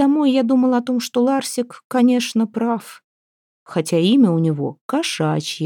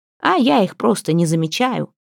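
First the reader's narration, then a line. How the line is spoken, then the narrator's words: Contemptuous snort. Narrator (Russian): презрительно фыркнул Ларсик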